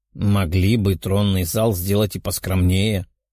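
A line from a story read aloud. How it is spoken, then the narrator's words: Grumbling. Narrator (Russian): проворчал демон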